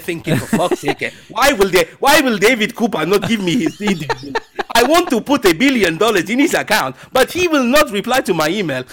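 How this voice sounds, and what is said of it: Put-on Nigerian accent, well done. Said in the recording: “that is a very good impression”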